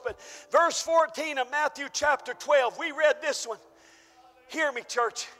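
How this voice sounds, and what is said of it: Hoarse, strained voice. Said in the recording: “I'm losing my voice. ... I'm kind of losing my voice.”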